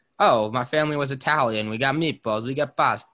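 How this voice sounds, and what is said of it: Put-on Italian accent. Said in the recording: “with an Italian accent”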